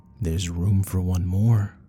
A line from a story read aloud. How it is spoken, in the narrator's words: with a slight chuckle says